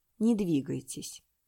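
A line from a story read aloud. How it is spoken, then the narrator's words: Calm. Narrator (Russian): спокойно сказал он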